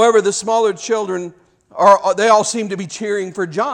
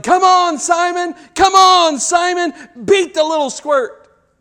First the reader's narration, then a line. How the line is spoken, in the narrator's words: Some are yelling